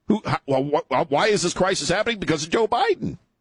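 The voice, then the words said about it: Voice cracks mid-sentence. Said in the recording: “Sorry, my voice just broke.”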